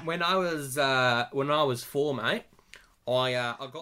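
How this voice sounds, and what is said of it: Put-on Australian accent. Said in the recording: “Why did it go Australian? ... You were so Texan, and then went so Australian.”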